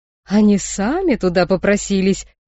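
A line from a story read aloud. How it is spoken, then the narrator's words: Joyful exclamation. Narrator (Russian): радостно воскликнул Ронту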